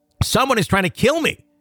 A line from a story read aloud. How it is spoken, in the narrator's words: my husband screaming